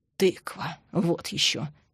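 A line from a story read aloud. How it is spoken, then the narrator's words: Gruff grumble. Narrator (Russian): буркнул Андрей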